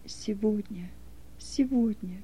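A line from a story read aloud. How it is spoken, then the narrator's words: Quiet repeated muttering. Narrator (Russian): все время тихо повторял про себя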